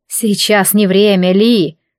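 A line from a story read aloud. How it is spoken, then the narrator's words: Menacing. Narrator (Russian): грозно произнесла Мирена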